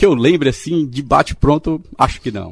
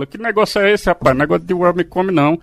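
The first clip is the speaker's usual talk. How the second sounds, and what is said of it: Imitates another person's voice. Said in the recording (Portuguese): “o Maguila chegava e dizia assim ... imitação”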